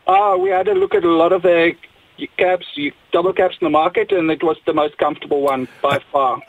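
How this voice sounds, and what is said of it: South African accent. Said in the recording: “I'm detecting an accent. ... Did you drive it from South Africa?”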